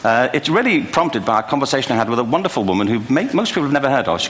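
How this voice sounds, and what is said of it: English accent. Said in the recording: “He's an Englishman. You'll tell right away. It's a little challenge to kind of dial into his accent”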